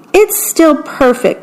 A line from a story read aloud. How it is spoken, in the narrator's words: Mickey exclaimed